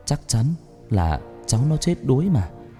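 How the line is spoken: Old woman's mutter. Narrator (Vietnamese): Bà Thoa lắc đầu miệng lẩm bẩm

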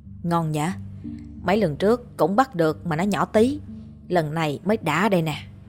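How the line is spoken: Boy speaking softly. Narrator (Vietnamese): Thằng Phát nói khẽ

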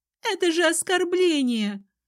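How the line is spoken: Shrill, squealing tones. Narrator (Russian): Поддержала ее другая со знакомыми визгливыми интонациями

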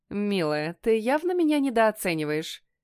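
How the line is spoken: Snide reply. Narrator (Russian): ехидно отвечаю я

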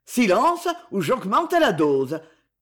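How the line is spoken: Bandit speaking harshly. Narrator (French): dit durement le bandit

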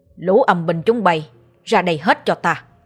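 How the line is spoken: Loud commanding shout. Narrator (Vietnamese): Ông Sáu quát lớn

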